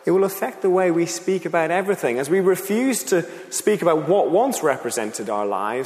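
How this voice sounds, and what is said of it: Irish accent softened by UK living. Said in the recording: “they often ask where my accent is from. Now, I was born in the Republic of Ireland, but I moved to the UK ... my accent has been transformed”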